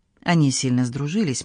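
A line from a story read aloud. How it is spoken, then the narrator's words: Soft. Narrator (Russian): мягко говорит Нат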